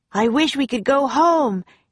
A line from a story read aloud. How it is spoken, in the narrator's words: he shouted